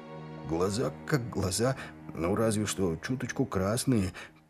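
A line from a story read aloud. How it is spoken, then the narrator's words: Muttered to himself. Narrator (Russian): пробормотал себе под нос Крюк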